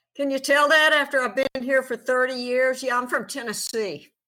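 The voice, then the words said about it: Slight Southern drawl. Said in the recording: “you must be from someplace south of there because I hear a little drawl in your voice”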